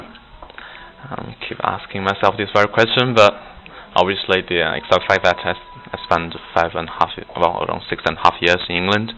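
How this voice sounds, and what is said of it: Strong British accent. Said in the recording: “you have a very strong British accent, but you're a Chinese guy”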